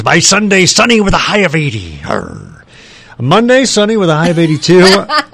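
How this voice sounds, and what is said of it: Put-on pirate voice. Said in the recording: “What's the accent? ... let's do a pirate.”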